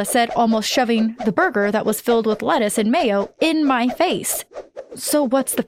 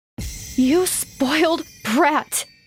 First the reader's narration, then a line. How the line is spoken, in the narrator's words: I spat